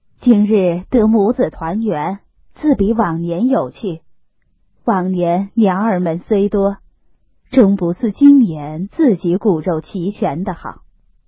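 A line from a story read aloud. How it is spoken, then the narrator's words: Laughing. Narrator (Chinese): 王夫人笑道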